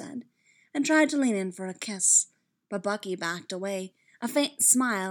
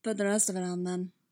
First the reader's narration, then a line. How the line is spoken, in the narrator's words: Bucky said in that husky voice